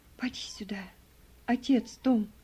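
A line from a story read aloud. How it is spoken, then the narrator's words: Whispered. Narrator (Russian): прошептала она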